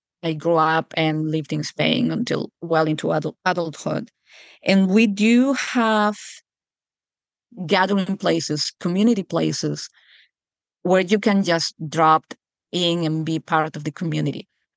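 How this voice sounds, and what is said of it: Spanish accent in English. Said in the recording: “you can hear that my accent is definitely not American. I come from Europe and from Spain.”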